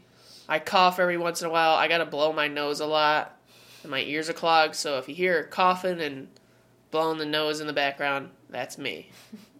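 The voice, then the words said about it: Stuffy, congested voice. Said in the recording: “my voice sounds a little off, it's because I have this, like, head cold sort of thing ... You sound a little stuffy ... My nose is a little stuffy”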